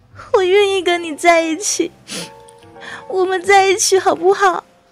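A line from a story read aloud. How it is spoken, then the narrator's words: Smiling. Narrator (Chinese): 九饼再一次笑了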